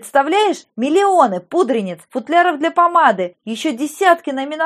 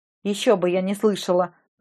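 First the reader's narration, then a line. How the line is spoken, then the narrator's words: Gloomy reply. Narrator (Russian): мрачно отозвалась я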